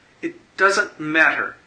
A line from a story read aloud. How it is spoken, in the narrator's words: she said sharply